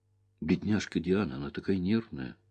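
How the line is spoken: Self-reproachful mutter. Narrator (Russian): пробормотал я, чувствуя неприязнь к себе

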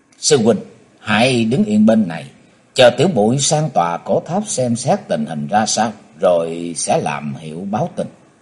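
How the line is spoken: Soft whisper. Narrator (Vietnamese): khẽ thầm nói

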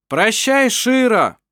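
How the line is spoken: Shouted together. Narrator (Russian): крикнули они

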